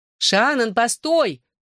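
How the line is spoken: Shouted after someone. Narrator (Russian): крикнула мне вслед Клэр

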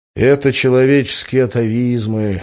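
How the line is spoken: Sigh. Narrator (Russian): вздохнул

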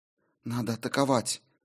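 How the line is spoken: Quiet. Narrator (Russian): тихо проговорила Мьёль

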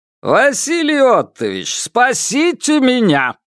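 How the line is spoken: Loud exclamation. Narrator (Russian): громко воскликнул

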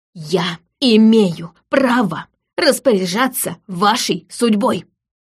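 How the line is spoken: Breathless father, through teeth. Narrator (Russian): почти задыхаясь, процедил отец

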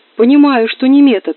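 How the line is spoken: Yelling. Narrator (Russian): завопил голос с потолка

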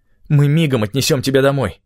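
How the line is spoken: Hoarse voice. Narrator (Russian): хрипло сказал

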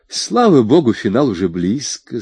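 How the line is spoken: Relieved sigh. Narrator (Russian): сказала Кристаль и облегченно вздохнула

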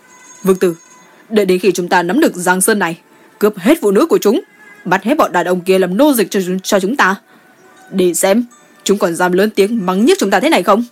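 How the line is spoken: Irritated. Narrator (Vietnamese): Mộc Ưng bực bội nói

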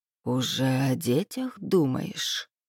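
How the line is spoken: Ingratiating whisper. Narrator (Russian): спросил он вкрадчивым шепотом, который прозвучал как поглаживание против шерсти

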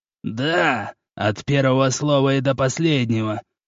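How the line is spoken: Quick creaky reply. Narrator (Russian): тут же проскрипел Митофу

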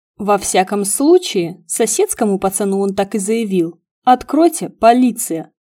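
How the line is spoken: Plain. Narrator (Russian): Сказала я

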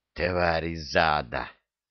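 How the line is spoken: Hateful hiss. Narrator (Russian): с ненавистью прошипел пленник

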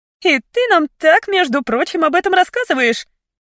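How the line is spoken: Hurt reproach. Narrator (Russian): упрекнула Фиона обиженно

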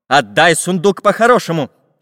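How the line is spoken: Angry. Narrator (Russian): сердито сказал Самоделкин

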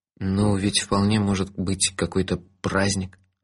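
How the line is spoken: Timid inner voice. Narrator (Russian): робко заметил мой здравый смысл

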